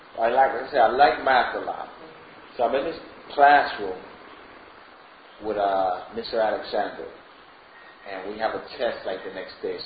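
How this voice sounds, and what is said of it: Non-native English accent. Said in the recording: “because of my accent”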